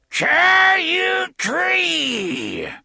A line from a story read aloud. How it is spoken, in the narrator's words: she screamed in her rusty old voice